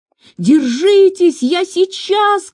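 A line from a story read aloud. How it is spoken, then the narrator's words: Shout. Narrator (Russian): крикнул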